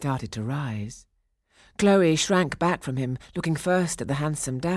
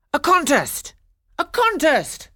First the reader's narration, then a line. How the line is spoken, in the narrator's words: the men all cried